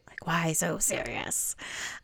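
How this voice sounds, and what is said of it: Lame Joker voice impression. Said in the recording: “that was my very lame attempt at a Joker impersonation.”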